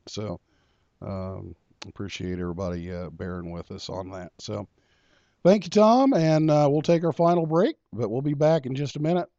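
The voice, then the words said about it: Hoarse voice from illness. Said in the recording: “I'll try to clear my throat out again... this illness has kind of messed up my voice, so I don't have my usual radio voice tonight”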